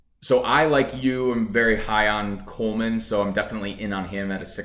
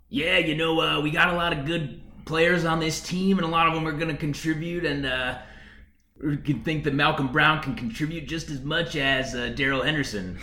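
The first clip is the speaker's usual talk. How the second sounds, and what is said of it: Poor Sean McVay impression. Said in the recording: “That was my shitty Sean McVay impression.”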